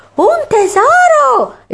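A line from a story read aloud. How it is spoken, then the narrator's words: Exclaiming. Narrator (Italian): esclamò ancora Kate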